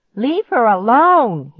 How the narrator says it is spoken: he shrieked

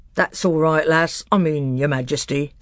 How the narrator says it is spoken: said Trumpkin with a chuckle

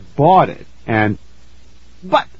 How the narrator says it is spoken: I sputtered

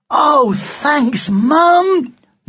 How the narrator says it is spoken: cried

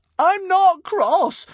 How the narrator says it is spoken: squealed Hiccup

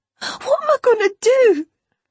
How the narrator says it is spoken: Her sobs were loud and unrestrained

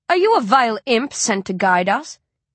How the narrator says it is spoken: she asks, haughtily

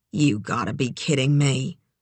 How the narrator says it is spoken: she muttered

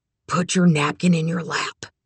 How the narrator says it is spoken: Manny whispered

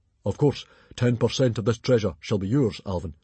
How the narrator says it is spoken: boomed Stoic the Vast, sticking his belly out in pride at his own generosity

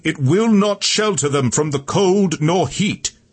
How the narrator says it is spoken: Tiberius shouted over the roars

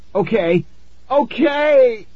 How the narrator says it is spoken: I screamed

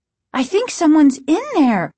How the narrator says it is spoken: Margaret exclaimed

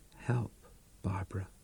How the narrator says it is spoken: After a long pause, you said in a low voice

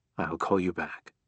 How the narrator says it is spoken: whispered

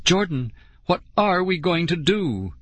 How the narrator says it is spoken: Lauren wailed

